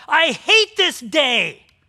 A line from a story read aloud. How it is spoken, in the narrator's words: me yell